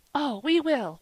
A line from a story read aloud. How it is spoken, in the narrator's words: they cried